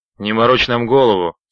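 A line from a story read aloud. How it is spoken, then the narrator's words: Plain. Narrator (Russian): сказал человек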